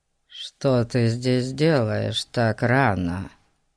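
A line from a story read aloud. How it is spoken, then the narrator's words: Unexpectedly quiet man. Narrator (Russian): Неожиданно тихим голосом спросил мужчина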